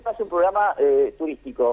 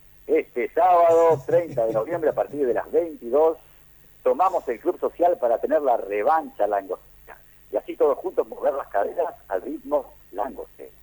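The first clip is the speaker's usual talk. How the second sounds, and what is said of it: Announcer-style voice. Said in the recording (Spanish): “con voz de tipo que anuncia cosas ... De Jorge Formento, de hacer una voz”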